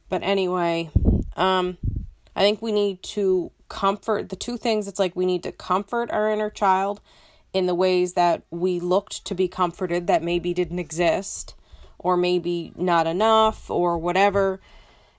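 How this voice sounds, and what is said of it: Raspy dry-throated voice. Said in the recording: “I'm realizing how raspy I sound. ... I always have a real dry throat in the morning”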